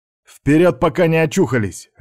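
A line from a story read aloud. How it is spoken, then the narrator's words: Barking. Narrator (Russian): рявкнул Степан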